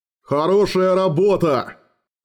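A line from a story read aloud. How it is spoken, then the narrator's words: Barked. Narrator (Russian): рявкнул Гарцвок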